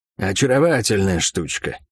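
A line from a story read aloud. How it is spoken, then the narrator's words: Thief's amused snort. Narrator (Russian): хмыкнул вор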